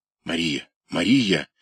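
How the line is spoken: Quiet call. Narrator (Russian): тихо позвал он

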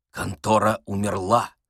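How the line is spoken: Whisper. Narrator (Russian): шепнул Остап

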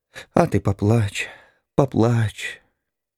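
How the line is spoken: Choking, mumbling. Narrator (Russian): Захлебываясь, она бормотала

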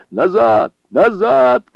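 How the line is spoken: Many voices shouting together. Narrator (Russian): кричали все в один голос

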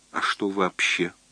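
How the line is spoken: Whisper. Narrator (Russian): прошептала Алина

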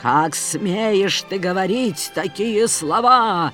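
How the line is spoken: Angry priest exclaiming. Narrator (Russian): гневно воскликнул жрец

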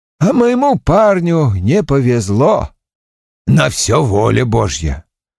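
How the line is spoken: Sad. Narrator (Russian): грустно покачав головой ... сказал

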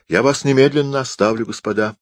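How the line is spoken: Exclamation. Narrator (Russian): воскликнул Санин

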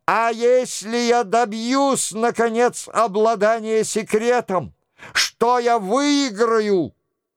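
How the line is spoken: Desperate shout through sobs. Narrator (Russian): Взбудораженный, с сердцем, объятым отчаянием, с агонией в душе, крикнул сквозь рыдания

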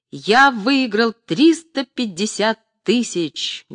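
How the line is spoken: Loud repetition. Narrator (Russian): громко повторил Иван Сафроныч

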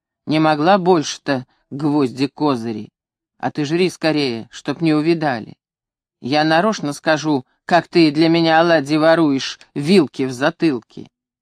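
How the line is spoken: Grumbling. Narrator (Russian): Виктор ворчал

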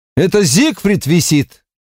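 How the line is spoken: Shout. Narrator (Russian): закричал он

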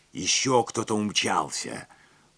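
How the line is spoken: Agitated whisper. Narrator (Russian): взволнованно прошептал мосье Ламбер

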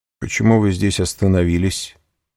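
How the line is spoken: Plain. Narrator (Russian): спросил господин Дейпене

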